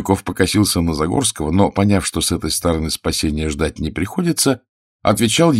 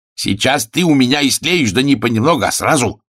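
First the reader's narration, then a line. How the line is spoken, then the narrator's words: Barking angrily. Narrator (Russian): рявкнул помощник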